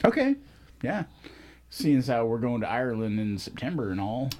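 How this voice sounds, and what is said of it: Put-on Irish accent. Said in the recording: “Again with that perfect accent. ... That's my Irish accent.”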